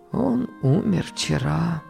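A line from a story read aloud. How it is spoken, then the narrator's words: Quiet servant. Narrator (Russian): тихо сказал слуга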